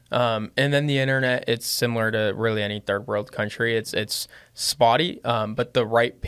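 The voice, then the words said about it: Lebanese-accented English. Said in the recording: “I still have like that Lebanese accent of just like broken English in a way. I'm not the best speaker”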